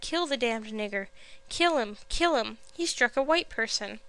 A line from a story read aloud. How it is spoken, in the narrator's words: some cried